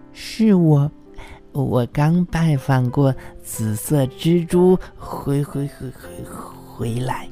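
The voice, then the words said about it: Quiet voice holding back giggles. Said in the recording (Chinese): “小声的回答，他强忍住还没有咯咯的笑出声来”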